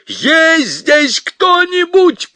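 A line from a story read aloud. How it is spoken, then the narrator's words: Shouting. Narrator (Russian): прокричал он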